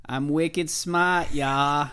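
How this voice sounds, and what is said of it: Put-on Boston accent. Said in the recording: “do a Boston accent”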